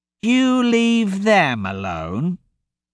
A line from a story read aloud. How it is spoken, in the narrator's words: Albert said in a mocking tone